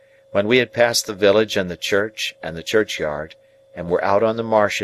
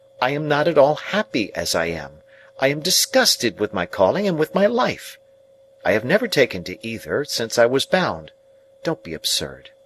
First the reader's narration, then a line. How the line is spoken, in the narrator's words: I exclaimed impatiently